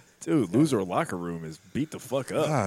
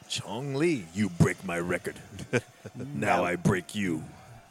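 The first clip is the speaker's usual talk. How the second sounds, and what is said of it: Very odd put-on movie villain accent. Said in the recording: “With the weirdest fucking accent of all time.”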